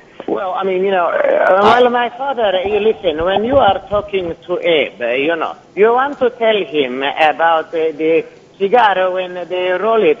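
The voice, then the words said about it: Imitation of father's accent. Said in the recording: “You have your father's accent down pat”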